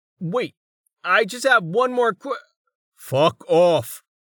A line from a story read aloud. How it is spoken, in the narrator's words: the man roared